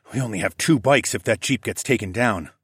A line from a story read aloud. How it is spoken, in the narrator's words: I muttered